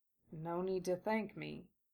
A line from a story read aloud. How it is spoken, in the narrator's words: Gata said softly, still visibly puzzled